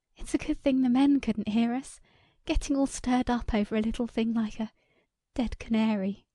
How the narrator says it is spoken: she began, in a high, false voice

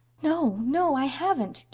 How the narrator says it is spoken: gasped poor Anne

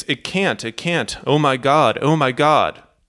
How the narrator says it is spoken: Captain Stefanini exclaims

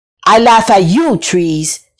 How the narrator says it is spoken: she shouted

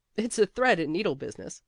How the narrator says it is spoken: he said laughing

